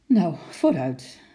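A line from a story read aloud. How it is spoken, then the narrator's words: Half laughing, half sighing. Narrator (Dutch): zei, half lachend en half met een zucht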